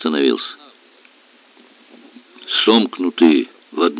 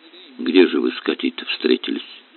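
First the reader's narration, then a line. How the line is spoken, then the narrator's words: Quiet question. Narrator (Russian): Аристарх Павлович спросил тихо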